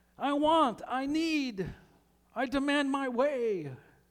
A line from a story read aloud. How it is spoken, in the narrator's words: Being childish shouts